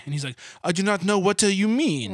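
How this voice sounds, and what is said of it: Bad put-on Italian accent. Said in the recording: “I wanted to start French, and then I wound up with, like, a terribly bad, I don't even know, like, a mockery of a bad Italian... That was a travesty”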